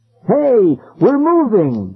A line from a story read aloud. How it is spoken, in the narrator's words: Ben cried happily